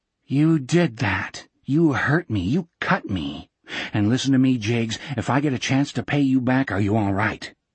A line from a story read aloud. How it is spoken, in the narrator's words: the captain whispered